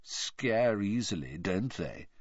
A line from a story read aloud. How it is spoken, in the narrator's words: he said lazily